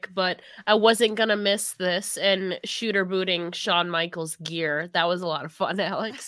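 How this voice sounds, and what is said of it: Sick-sounding voice. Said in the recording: “sorry for my voice too, guys. I'm still sick”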